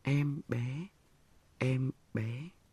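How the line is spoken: Whisper. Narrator (Vietnamese): Chị thì thào mấy tiếng

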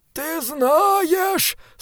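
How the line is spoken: Monk moaning. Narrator (Russian): стонал монах

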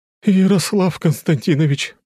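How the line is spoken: Breathless exclamation. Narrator (Russian): воскликнула подбежавшая тетя Женя

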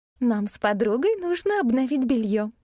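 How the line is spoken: Cheerful. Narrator (Russian): весело сказала Габриэль

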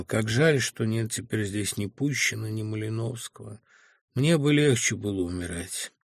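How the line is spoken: Sighing. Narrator (Russian): вздохнув, сказал

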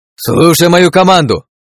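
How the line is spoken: Shout over battle noise. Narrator (Russian): крикнул, перекрывая шум боя

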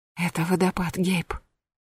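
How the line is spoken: Whisper. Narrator (Russian): прошептала

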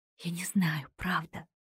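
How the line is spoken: Whisper. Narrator (Russian): прошептала мужчине

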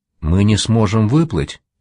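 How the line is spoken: Plain question. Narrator (Russian): спросила она

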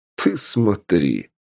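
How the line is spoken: Snorting again. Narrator (Russian): опять хмыкнул Полос

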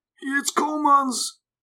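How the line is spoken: Scattered whispering voices. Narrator (German): flüsterten einzelne Stimmen

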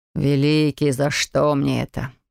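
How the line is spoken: Groaning. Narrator (Russian): простонал граф

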